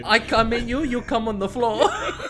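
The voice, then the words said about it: Puts on an accent. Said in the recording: “What was that accent? ... Why'd you have to chuck an accent on that?”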